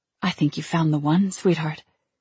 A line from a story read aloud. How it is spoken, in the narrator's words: my mother whispered